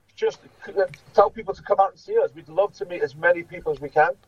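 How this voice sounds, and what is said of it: Liverpudlian accent. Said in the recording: “some of you may be able to detect that he's from Liverpool. He's got a Liverpudlian accent”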